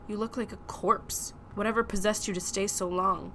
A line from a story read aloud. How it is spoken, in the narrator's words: he said crossly